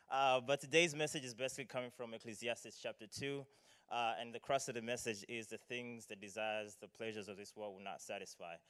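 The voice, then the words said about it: Malawian accent. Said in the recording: “I am from Malawi, so excuse the accent if some words sound unfamiliar or or funny.”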